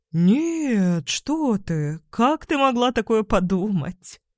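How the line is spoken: Chuckled. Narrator (Russian): хохотнул Иван

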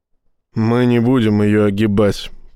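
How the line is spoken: Through gritted teeth. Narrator (Russian): процедил Рашин

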